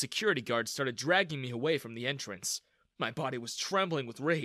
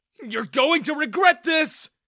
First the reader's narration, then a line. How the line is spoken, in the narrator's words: I yelled at Daniel